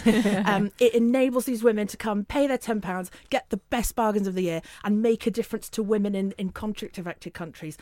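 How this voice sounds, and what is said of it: Northern English accent. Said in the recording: “hence my northern accent.”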